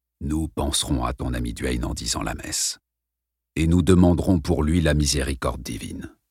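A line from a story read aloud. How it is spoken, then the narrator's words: Gentle priest. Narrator (French): dit doucement le père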